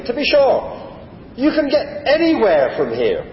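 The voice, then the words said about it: Broad Irish brogue. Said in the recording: “the Irishman, in his broad Irish brogue”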